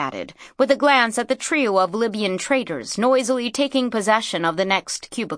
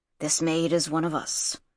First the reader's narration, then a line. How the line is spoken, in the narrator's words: he murmured